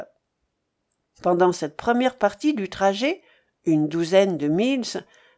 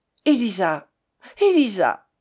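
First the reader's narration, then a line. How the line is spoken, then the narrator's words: Exclaimed. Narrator (French): s'écria Miss Anna Weston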